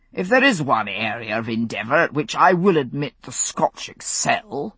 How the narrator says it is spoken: the lieutenant proclaimed rather pompously

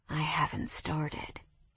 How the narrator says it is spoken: he murmured against my pussy

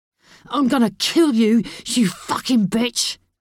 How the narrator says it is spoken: he yelled

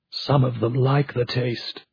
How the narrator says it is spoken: Hugo whispered, but they heard him

